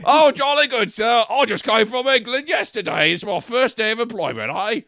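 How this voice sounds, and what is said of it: Put-on British accent. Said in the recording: “doing British accent for that guy”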